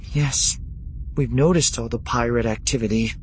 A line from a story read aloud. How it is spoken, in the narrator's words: Leia said, fighting to keep her voice steady